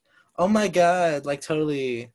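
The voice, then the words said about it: Valley girl accent. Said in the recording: “my Valley girl accent come out sometimes ... the Valley girl accent”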